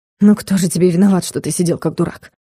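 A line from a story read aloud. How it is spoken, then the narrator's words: Smirking snort. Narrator (Russian): хмыкнул Влад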